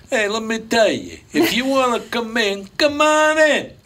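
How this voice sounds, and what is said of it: Put-on Italian accent. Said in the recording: “you could still do that accent ... Italians”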